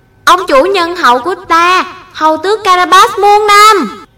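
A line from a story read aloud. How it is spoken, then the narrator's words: Loud crowd chant. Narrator (Vietnamese): những người nông dân lớn tiếng hô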